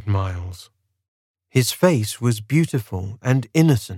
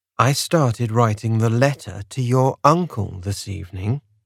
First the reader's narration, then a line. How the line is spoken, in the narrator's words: I said